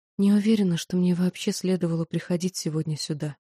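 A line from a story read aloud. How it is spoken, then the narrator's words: Whisper. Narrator (Russian): я прошептала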